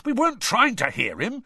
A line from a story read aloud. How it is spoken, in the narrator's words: said Ron indignantly